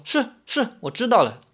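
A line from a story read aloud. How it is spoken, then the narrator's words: Hurried. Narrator (Chinese): 李逍遥被这么一提醒，急忙说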